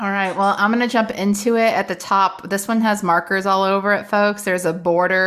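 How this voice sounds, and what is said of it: Usual voice. Nothing is said of it.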